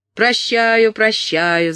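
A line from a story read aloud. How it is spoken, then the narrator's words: Squire shouting. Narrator (Russian): закричал сквайр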